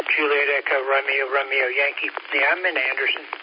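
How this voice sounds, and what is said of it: Hoarse voice. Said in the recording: “I'm a little hoarse this morning”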